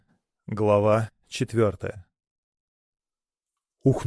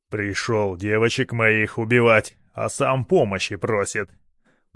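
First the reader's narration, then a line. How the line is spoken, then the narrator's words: Grumbling swamp creature. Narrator (Russian): проворчал болотник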